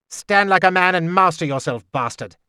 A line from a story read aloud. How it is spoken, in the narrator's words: Galen told me harshly